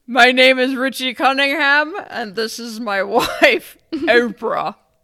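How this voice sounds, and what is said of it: Good impression of Austin Powers character. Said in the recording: “That was a really good impersonation. ... That's Austin Powers.”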